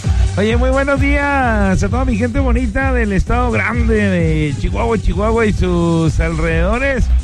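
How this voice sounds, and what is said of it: Radio announcer voice, not shouting. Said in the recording (Spanish): “hoy no puedo gritar así como... normalmente siempre ando gritando... Ahora sí traigo la voz de locutor”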